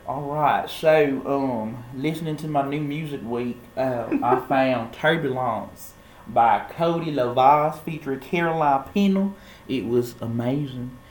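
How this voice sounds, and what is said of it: Cringy put-on accent. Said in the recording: “let me drop this accent. I'm sorry. That was cringy.”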